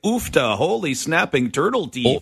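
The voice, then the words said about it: Minnesota Midwestern accent. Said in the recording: “Let's do Midwest. Do Midwest. ... I could see someone from Minnesota doing that in their Minnesota nice way.”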